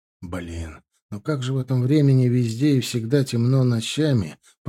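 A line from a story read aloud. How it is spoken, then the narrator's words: Grumble after stumbling. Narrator (Russian): пробурчал он, споткнувшись о большой булыжник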